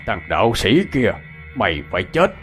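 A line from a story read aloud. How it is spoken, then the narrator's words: Loud laughing taunt. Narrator (Vietnamese): Bính Mù cười lớn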